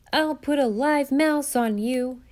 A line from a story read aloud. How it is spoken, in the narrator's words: yelled